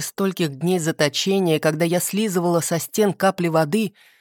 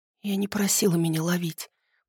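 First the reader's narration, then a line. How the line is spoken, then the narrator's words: Whispered. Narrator (Russian): прошептала я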